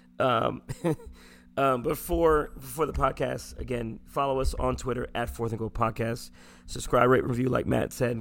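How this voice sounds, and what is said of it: Hoarse, strained, fading voice. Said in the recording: “I can hear you losing your voice, man”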